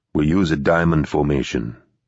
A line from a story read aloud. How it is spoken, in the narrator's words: Teddy said in a low, steady voice